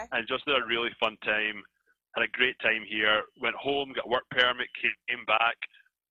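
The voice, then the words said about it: Scottish accent. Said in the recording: “I'm from Scotland. This is an accent that you hear.”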